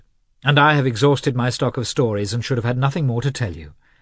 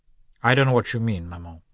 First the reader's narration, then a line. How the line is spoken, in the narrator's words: the son replied coldly